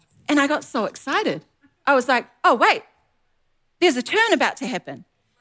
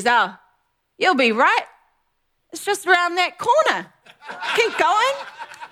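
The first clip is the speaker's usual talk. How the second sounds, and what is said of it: Put-on New Zealand accent. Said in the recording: “in a classic Kiwi accent”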